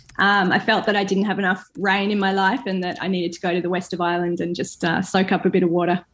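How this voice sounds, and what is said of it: Australian accent, not Irish. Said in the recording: “that is not a Galway accent ... I actually come from the southernmost county of Ireland, which is Queensland in Australia”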